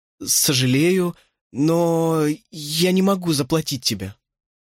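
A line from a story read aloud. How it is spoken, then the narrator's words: Upset stammering mumble. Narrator (Russian): Мое огорчение я, запинаясь, промямлил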